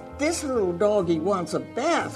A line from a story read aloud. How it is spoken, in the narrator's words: cried the little girl